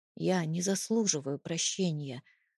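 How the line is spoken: Quiet. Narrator (Russian): начал тихо

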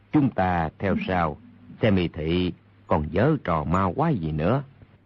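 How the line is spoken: Lowered voice. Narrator (Vietnamese): Đạo nhân kia hạ giọng nói

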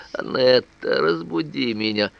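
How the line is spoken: Effortful mumbling. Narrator (Russian): бормотала, с усилием выговаривая слова

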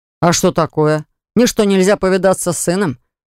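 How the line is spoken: Angry question. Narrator (Russian): Вдруг спросил он зло

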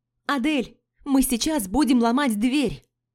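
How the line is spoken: Yelled. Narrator (Russian): Заорала я

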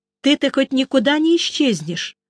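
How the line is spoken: Asked sternly. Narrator (Russian): строго спросила она

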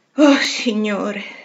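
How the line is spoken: Sighed. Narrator (Italian): sospirava Meg la mattina dopo

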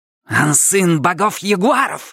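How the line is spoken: Menacing growl. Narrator (Russian): грозно прорычала она

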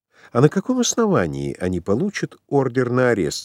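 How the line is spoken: Plain. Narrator (Russian): спросила Делла

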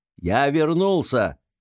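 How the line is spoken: Angry shout. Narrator (Russian): уже не сдерживая злость, закричал Хайскар

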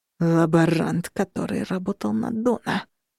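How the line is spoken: Growled. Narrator (Russian): прорычал Костя

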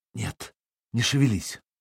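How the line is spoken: Whisper. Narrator (Russian): Искра шепнула

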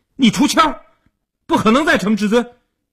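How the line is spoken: Clamoring. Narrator (Chinese): 一边嚷嚷着

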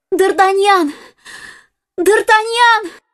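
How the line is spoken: Shouting. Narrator (Russian): закричала она

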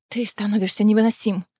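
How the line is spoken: Sigh. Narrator (Russian): вздохнула Фейра

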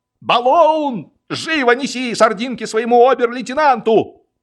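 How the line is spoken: Orderly yelling. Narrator (Russian): батальонный ординарец Матушич заорал

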